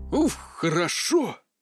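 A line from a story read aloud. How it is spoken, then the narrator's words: Relieved exhale. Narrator (Russian): выдохнул Терри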